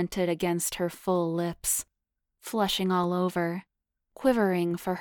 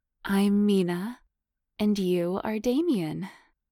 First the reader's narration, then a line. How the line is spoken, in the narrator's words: she purred